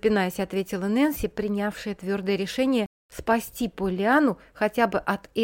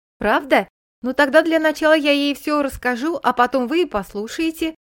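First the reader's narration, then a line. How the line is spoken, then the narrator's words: Joyful little girl. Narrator (Russian): радостно пообещала малышка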